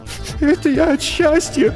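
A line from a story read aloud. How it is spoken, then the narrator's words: Mumbled through sobs. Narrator (Russian): Сквозь всхлипы пробормотала она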